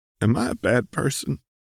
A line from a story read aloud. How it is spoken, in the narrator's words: You croak